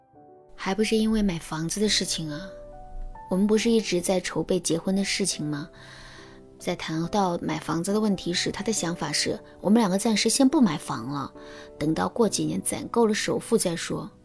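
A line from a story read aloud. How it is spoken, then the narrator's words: Sighing. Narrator (Chinese): 玲玲叹了一口气，对我说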